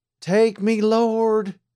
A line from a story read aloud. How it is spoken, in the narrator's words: cried aloud